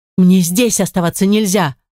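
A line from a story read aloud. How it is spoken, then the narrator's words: Snapped. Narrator (Russian): Огрызнулась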